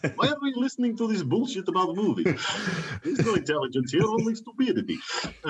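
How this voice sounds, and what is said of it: Clichéd put-on Russian accent. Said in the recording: “very cliched Russian accent”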